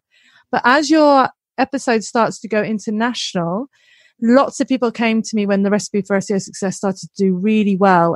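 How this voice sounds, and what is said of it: Clipped English accent, northern tinge. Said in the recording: “I think I've got a really beautiful clipped English accent, but sometimes I get dead northern”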